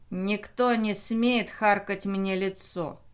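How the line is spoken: Through gritted teeth. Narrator (Russian): процедил капрал

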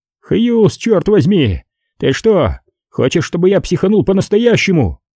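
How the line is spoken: Shouting after someone. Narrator (Russian): Перджи крикнул вдогонку

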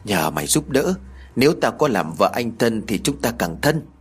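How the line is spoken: Whisper. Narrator (Vietnamese): Huê thì thầm

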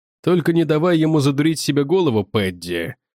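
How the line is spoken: Ironic grumble. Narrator (Russian): С иронией проворчал Уорнер

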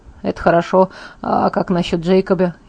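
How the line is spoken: Sighing. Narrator (Russian): Я вздохнула

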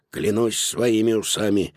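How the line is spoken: Grumbling. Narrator (Russian): пробурчал Додо

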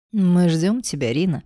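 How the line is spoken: Affectionate purring. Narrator (Russian): промурлыкал он, как огромный ласковый кот

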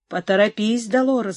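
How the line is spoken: Plain. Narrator (Russian): говорит она

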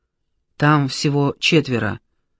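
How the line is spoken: Whisper. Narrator (Russian): зашептал Горшенин

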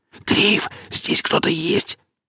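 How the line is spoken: Whisper turning to plaintive whine. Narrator (Russian): Шепот перешел на жалобное подвывание

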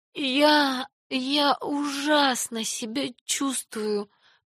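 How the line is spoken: Moaning. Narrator (Russian): простонала она

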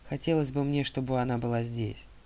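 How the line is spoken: Plain. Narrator (Russian): сказал я

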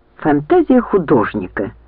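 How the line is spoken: Angry speech. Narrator (Russian): сердито проговорила Лианна

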